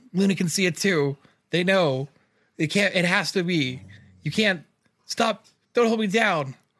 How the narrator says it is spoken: yell

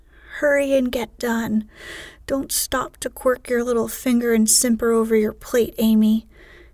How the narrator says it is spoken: cried Joe, choking on her tea

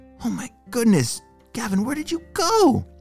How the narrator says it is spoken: Mason whispered to himself

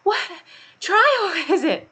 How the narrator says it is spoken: Alice panted as she ran

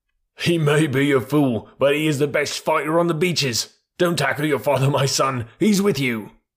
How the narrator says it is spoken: gave a roar and shouted

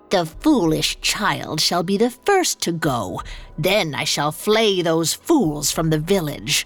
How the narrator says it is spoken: the witch cackled in the wind

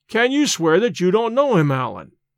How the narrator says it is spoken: I cried, half angered, half in a mind to laugh at his evasions

